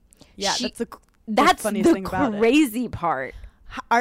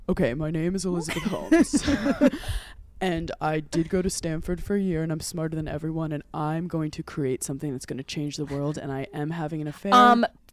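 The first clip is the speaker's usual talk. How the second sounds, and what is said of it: Elizabeth Holmes impression, fake deep voice. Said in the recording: “my Elizabeth Holmes impression ... that was spot on. Second of all, her voice is fake.”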